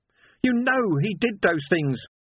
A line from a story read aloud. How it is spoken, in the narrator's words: shouted Sam